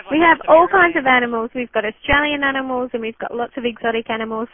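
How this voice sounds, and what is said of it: Speaks with a noticeable accent. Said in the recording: “I just have to say that I love your accent. ... Yeah, me too.”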